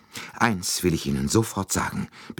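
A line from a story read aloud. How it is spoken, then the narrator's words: Breathless. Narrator (German): begann sie atemlos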